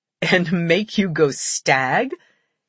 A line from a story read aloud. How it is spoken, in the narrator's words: He asked with a laugh